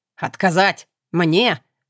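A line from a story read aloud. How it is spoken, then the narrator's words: Growling creature. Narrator (Russian): прорычало существо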